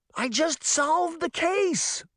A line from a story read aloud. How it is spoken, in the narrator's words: she shouted